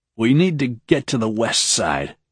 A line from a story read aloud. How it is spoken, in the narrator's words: he said, his voice a croak